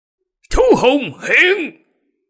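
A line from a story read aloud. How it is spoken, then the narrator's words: Loud shout. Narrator (Vietnamese): Lăng Thiên Hậu hét lớn một tiếng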